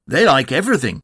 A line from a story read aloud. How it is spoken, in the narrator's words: said Tigger cheerfully